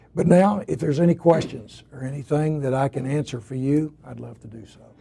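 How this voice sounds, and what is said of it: Hoarse voice. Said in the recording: “apologize for my voice. I'm never sick in my life, but this afternoon I just for some reason or other started getting hoarse.”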